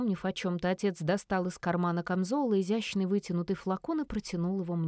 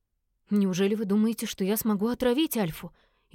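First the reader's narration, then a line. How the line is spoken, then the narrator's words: Frightened blurt. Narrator (Russian): Испуганно выпалила я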